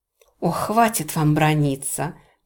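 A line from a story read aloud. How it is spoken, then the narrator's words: Tired. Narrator (Russian): устало сказала Эмма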